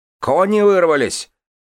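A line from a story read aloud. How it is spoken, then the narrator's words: Shouted. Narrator (Russian): крикнул кто-то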